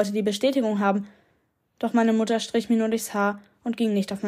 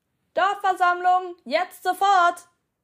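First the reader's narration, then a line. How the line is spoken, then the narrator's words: Someone calling nearby. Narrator (German): rief irgendwer in Hörweite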